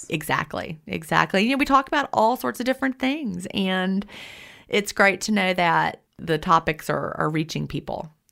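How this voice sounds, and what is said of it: Southern American accent. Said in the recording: “I hate your southern accent”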